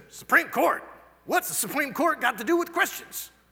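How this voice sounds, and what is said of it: Hillbilly accent imitation. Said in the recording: “my best hillbilly imitation”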